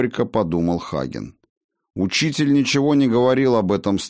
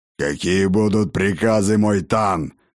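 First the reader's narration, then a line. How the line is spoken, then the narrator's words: Hoarse orc growl, close. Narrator (Russian): прорычал над самым ухом Хагена хриплый голос орка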